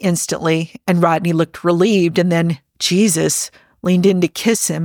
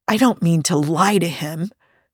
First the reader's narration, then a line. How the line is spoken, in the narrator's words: he said in a hushed voice